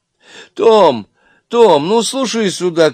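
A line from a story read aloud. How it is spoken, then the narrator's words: Shouting into phone. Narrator (Russian): кричала в трубку библиотекарша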